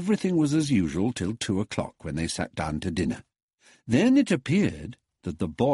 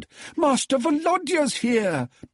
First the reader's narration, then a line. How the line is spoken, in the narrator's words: bawled Natalia, running into the dining room